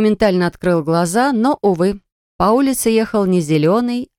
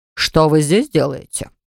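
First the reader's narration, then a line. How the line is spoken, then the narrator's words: Stern question. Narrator (Russian): строго спросил он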